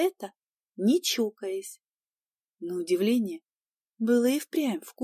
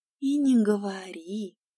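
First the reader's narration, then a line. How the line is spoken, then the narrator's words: Heavy sigh. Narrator (Russian): Я тяжело вздохнула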